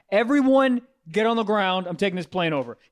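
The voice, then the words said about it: Deep commanding voice. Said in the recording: “You say it with a deep voice.”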